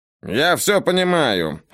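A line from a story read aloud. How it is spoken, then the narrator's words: Irritated reply. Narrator (Russian): раздраженно ответил Райан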